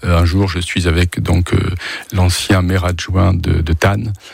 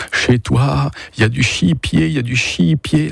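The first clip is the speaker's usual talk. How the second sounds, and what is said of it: Strongly pronounced regional French accent. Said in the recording (French): “L'accent ... L'accent très prononcé”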